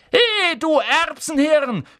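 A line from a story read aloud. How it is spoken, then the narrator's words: Shouting from across room. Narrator (German): schrie Ron von der anderen Seite des Raums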